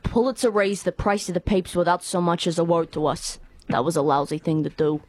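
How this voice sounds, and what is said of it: Put-on rough New York accent. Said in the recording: “rough New York accents ... Give me a New York accent. ... Oh, that is fantastic.”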